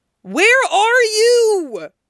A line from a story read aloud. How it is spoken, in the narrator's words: Gokudera shrieks into her ear